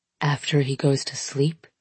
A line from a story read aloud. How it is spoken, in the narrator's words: whispers